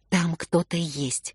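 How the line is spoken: Whisper. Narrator (Russian): Я прошептала

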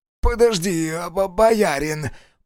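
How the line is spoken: Wheezed. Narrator (Russian): просипел, наконец, староста

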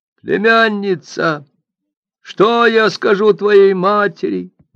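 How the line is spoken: Exclaiming. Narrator (Russian): воскликнул он

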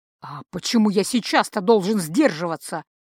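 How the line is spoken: Growling snow leopard. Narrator (Russian): прорычал в ответ барс

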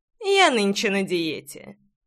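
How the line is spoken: Young man's smirking chuckle. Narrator (Russian): хмыкнул в ответ парень

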